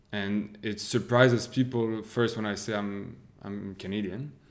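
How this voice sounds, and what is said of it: French-sounding accent in English. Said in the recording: “my accent is associated automatically 97% of the time with France.”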